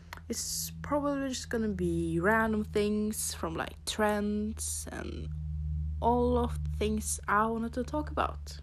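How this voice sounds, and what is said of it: Norwegian accent. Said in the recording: “you can probably hear that I have an accent. I am from Norway.”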